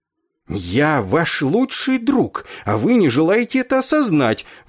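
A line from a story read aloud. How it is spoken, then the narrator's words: Indignant growl. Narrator (Russian): возмущенно прорычал он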